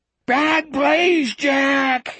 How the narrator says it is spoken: he screamed

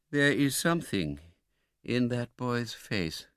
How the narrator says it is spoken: said the old gentleman to himself

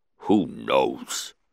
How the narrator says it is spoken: The Hutt grunted

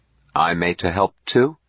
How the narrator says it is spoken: Smith said eagerly

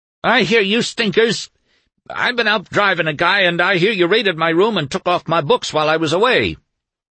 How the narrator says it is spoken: Carl Pascal shouted

